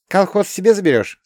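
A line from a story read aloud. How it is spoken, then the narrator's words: Plain. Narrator (Russian): спросила она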